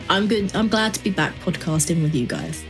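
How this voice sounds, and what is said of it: Slightly off voice, Cockney-tinged. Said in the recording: “My voice is still a little bit funny ... a hint of Danny Dyer about the voice”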